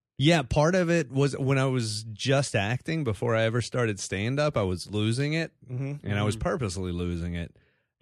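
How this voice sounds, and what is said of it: Mild Texas accent. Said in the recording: “from Texas ... has maintained some degree of their accent”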